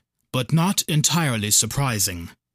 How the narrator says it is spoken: he sighed

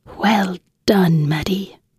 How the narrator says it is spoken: she whispered

